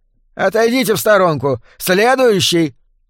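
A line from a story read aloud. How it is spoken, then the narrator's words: Shouted call. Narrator (Russian): выкрикнул кассир в красном жилете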